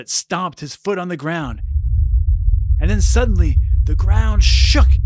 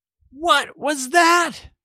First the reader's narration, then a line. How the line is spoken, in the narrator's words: cried Abigail